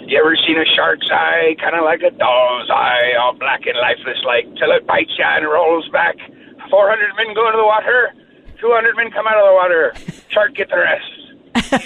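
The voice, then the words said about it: Imitates another person's voice, slightly drunk-sounding. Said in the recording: “that was an amazing impersonation of Robert Shaw. And you even added in a little bit of almost sounding drunk”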